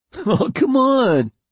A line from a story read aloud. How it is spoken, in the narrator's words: laughed Mitchell